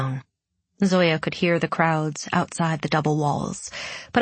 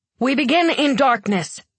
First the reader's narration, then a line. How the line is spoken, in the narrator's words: he cried to the swaying crowd